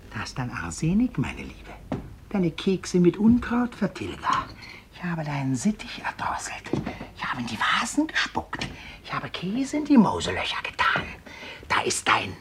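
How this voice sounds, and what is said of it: Whispering. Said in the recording (German): “flüstert”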